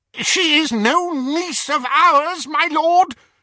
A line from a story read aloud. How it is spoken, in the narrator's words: she cried over the outpouring of mirth